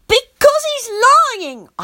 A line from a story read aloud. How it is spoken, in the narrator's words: I shouted